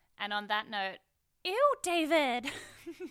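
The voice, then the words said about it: Impression of a TV character. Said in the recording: “my Alexis impression”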